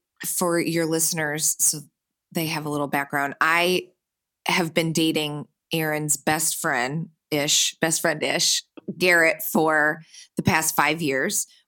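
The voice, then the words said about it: Michigan accent. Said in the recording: “You're from Michigan. I mean, I hear the accent. I know that listeners can hear that.”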